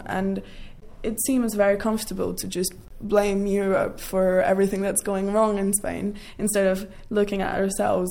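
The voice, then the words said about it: British accent. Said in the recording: “That accent is definitely British.”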